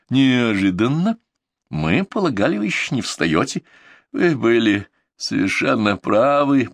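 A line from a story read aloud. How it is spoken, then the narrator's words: Creaking through gritted teeth, pained. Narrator (Russian): проскрипел я сквозь сжатые от боли зубы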